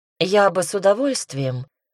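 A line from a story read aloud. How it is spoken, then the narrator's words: Tired sigh. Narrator (Russian): вздохнула устало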